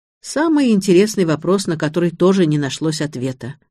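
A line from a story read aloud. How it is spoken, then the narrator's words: Hmph. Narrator (Russian): хмыкнул Александр Михайлович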